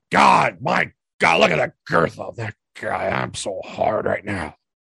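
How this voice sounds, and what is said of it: Imitates another person's voice. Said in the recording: “my Luke Gallows Vince imitation”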